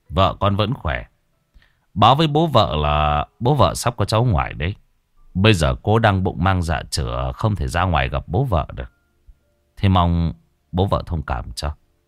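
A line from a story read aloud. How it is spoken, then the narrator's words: Smiling. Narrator (Vietnamese): Ông Trường mỉm cười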